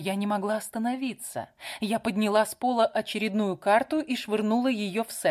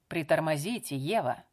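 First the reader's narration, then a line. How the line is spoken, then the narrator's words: Calm. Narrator (Russian): спокойно произнес Дерек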